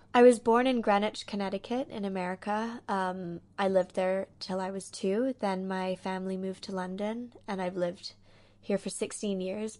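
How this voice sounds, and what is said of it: Mixed accent with American twang. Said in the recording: “listeners will obviously detect an American twang ... to your voice ... Weird mixture of an accent”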